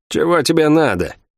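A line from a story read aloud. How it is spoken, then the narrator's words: Gloomy, restrained fury. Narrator (Russian): мрачно спросила Лавиани, с трудом сдерживая ярость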